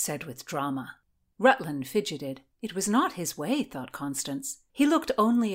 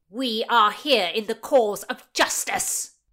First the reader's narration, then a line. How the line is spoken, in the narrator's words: boomed Oxford